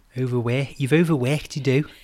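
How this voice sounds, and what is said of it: Put-on Liverpool accent. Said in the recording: “he's from Liverpool ... It's a really hard accent, though, isn't it? ... That sounded pretty good. ... It's a tricky accent to do”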